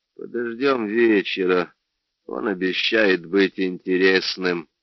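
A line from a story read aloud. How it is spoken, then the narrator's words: Young man mumbling. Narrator (Russian): пробормотал парень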